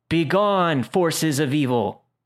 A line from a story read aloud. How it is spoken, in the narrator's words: he shouted